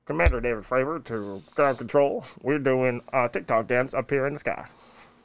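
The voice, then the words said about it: Pilot radio voice. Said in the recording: “That's a pretty good radio voice.”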